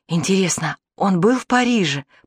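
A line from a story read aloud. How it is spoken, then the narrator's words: Whispered in ear. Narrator (Russian): шепнула Олене на ухо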